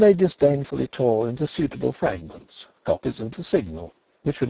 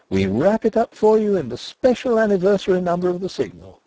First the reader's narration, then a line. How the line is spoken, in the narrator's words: the men cried